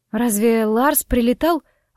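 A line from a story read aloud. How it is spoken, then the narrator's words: Suddenly hoarse question. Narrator (Russian): внезапно осипшим голосом спросила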